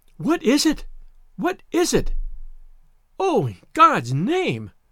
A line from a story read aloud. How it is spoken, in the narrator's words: She cried again and again